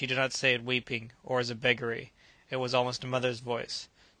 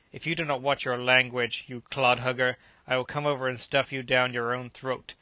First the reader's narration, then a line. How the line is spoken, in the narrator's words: Kiwi stretched his lips in anger and growled